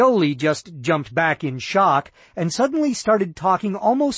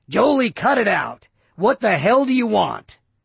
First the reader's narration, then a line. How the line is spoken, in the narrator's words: he snapped